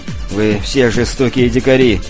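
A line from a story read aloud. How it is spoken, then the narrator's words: Gloomy. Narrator (Russian): мрачно заявил Лейтс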